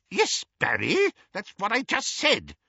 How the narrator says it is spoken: said Auntie Muriel testily

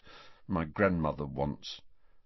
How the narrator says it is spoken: Neville looked miserable and muttered

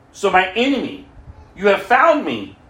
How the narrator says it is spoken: Ahab exclaimed to Elijah

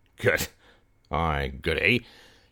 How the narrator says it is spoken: he muttered

